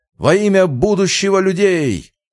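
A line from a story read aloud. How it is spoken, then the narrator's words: Shouted. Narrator (Russian): Один прокричал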